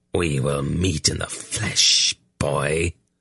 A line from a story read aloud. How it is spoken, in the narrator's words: the shadow snarled